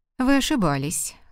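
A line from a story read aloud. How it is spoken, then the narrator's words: Dry interruption. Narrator (Russian): сухо прервал он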